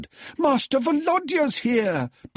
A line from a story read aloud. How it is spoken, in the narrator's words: bawled Natalia, running